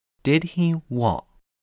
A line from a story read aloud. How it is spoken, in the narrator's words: The lady innkeeper said the words slowly and pointedly